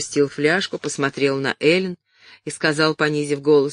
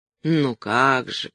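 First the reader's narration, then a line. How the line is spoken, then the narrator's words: Sighing. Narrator (Russian): вздохнул он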